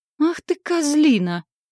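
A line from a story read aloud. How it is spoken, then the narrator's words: Furious howl. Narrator (Russian): взвыла я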